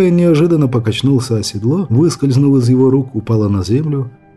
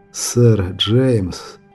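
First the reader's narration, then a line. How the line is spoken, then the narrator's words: Hoarse. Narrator (Russian): хрипло произнес он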